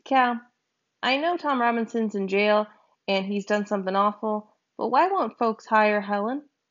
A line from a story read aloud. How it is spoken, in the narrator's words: I asked